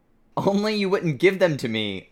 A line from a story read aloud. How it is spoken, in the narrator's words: Lumpkin shouted angrily